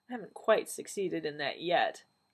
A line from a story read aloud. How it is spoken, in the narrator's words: the doctor said dryly